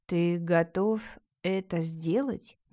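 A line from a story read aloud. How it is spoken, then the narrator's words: Slow, astonished. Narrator (Russian): медленно и с выразительным изумлением произнесла Ингитора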